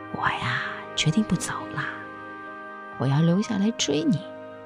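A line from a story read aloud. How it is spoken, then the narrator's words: Smug whisper. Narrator (Chinese): 赵楠得意地笑了，他贴着于乐乐的耳边小声地说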